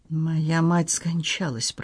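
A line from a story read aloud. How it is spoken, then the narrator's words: Muttered. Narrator (Russian): пробормотал он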